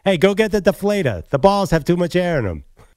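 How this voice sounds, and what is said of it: Put-on Boston accent. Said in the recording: “said with a Boston accent.”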